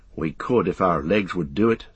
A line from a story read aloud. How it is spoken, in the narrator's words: said Merry